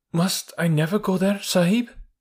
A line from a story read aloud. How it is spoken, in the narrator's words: asked little Toomai with a big gasp